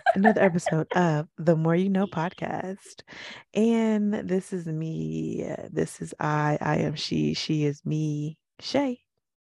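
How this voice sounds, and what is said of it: Voice sounds a little off. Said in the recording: “my voice is a little off ... I'm a little tired”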